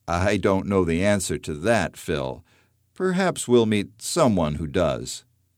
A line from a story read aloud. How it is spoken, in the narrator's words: Grandpa Ben chuckles and then responds